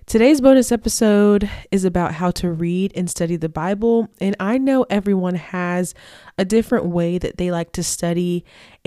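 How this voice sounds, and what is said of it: Nasal, stuffed-up voice. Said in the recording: “my voice sounds nasally. It's because my nose is a little bit stuffed up”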